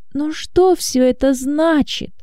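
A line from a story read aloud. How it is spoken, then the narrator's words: Speaking through tears. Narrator (Russian): говорила она сквозь слезы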